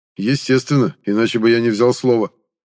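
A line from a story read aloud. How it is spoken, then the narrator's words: Snorting. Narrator (Russian): фыркнул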